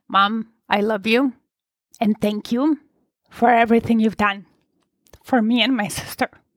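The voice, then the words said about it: Choked-up, emotional voice. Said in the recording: “I'm joking up a bit. It's getting emotional.”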